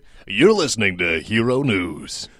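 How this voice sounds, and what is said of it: Announcer-style radio voice. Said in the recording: “I'll just do the radio voice again.”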